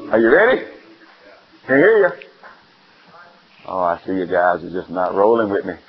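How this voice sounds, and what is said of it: Southern American accent. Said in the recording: “that Southern accent sometimes comes through”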